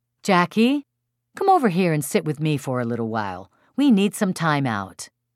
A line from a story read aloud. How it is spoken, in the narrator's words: Her mom would say warmly